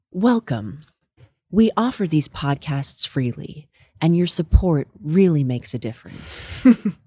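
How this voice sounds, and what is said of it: Gentle Tara Brock podcast impression. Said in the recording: “I'm gonna do an impression of the beginning of her podcast ... Tara Brock ... just like talking to you, like really gently”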